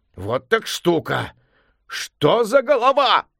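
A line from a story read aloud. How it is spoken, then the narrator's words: Amazed exclamation. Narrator (Russian): изумленно воскликнул он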